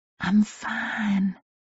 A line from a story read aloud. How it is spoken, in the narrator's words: I whispered, the alcohol still coursing through me